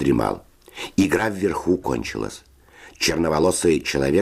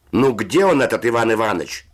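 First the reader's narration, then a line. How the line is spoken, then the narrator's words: Shout from above. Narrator (Russian): закричал голос верхних нар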